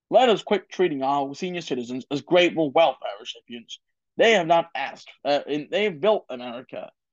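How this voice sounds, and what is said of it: Poor Richard Nixon impression. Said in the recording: “crappy impersonation of Richard Nixon in his 1972 Republican National Convention speech”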